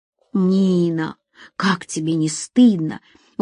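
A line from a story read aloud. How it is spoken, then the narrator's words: Reproachful whisper. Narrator (Russian): укоризненно прошептал Асим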